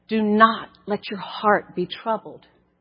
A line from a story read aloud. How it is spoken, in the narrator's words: a still, small whisper